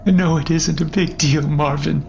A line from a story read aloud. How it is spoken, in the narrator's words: she replied shakily